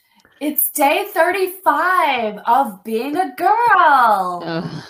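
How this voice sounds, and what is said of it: Man imitating ditzy 1940s woman. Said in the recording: “your impression of a guy trying to be like a uh, dumb ditzy broad from the 40s ... that was dead on”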